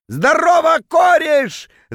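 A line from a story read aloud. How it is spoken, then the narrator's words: Drunken bellow. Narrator (Russian): заорал он дурным пьяным голосом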